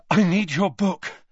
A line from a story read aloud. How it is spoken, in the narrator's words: Harry panted